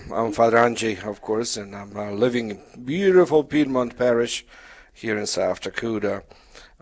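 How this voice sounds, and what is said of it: Polish accent. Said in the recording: “My background is Polish, so that's the accent.”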